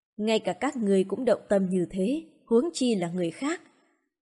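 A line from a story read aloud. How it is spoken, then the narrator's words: Soft, smiling. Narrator (Vietnamese): Phương Thốn nở nụ cười, nói khẽ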